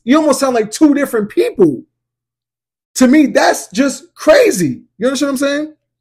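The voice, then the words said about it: Yelling, excited loud voice. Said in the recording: “I'm yelling”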